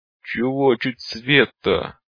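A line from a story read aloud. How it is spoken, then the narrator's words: Groaning. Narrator (Russian): простонал он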